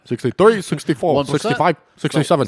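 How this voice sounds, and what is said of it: Comic character voice counting numbers. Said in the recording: “What was that voice? ... It's the autistic guy. ... It's Bernie Sanders as an autist.”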